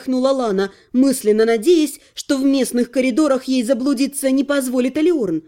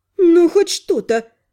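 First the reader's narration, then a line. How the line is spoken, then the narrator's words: Sighing healer. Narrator (Russian): вздохнула целительница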